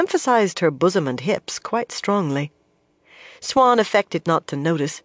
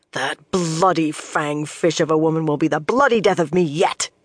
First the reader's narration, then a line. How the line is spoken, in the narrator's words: she growled